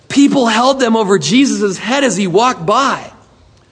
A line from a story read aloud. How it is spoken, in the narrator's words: The dad very excitedly said